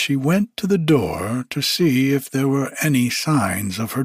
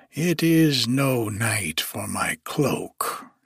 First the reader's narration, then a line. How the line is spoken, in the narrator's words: she muttered